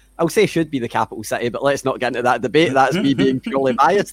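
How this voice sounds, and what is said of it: Scottish accent. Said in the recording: “people can hear my voice, they can hear my accent. I'm I'm pretty Scottish”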